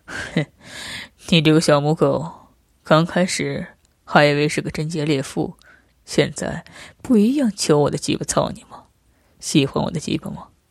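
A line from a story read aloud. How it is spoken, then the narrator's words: Man laughing heartily. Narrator (Chinese): 男人哈哈笑着说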